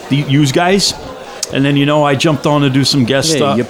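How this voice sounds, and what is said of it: Put-on Italian voice. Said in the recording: “Why am I doing the Italian voice?”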